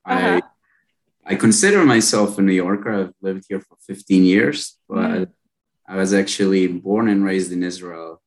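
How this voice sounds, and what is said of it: Slight foreign accent. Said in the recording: “Maybe my accent gives it away ... I did hear a little accent there, but it wasn't a giveaway.”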